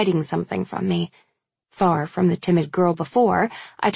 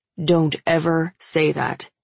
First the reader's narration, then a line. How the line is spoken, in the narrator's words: he growls